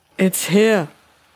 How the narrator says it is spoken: he shouted, stumbling back

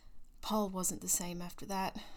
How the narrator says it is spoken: he murmured

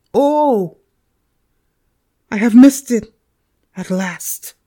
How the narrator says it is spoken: again exclaimed in agony and horror

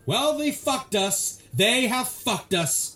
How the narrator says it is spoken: Parnell began to say, but was cut off

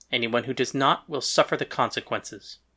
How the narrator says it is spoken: he said flatly

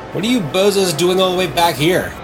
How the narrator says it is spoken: He called out

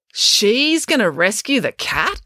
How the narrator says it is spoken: exclaimed April

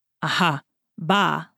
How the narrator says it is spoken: said D'Artagnan

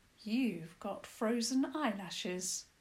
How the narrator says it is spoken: the hare informed Princess Isobel

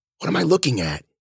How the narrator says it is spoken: whispered

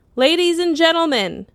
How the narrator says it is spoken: a voice boomed from all directions

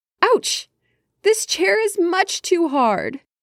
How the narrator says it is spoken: Goldilocks she cried

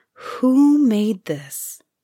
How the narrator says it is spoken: sighed at last

